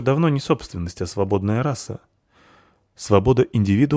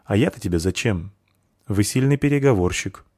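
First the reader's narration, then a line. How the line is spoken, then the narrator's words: Emotionless tone. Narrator (Russian): отметил кованый своим безэмоциональным тоном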